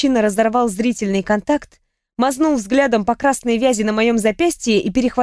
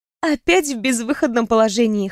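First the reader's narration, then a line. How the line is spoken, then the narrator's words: Snorting. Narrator (Russian): хмыкнула я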